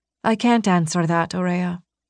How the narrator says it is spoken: Alia said softly

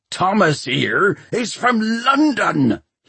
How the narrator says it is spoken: he shouted

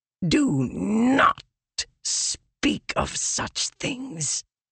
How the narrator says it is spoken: Leshwe hissed

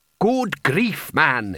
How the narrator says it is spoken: he snapped

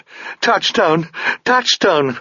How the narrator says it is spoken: Sabriel sobbed

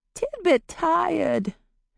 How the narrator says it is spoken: the boy whined quietly

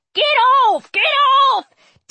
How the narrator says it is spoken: Jared scuffling behind me and yelling

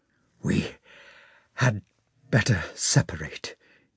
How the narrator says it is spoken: he muttered in a broken voice

